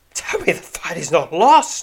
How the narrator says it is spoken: cries, assuming the worst

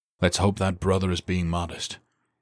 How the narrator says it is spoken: he said with a sigh

